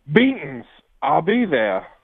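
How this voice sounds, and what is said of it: Southern drawl Taz impression. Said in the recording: “It's better with the Southern drawl ... a hillbilly trying to do his best Taz impression.”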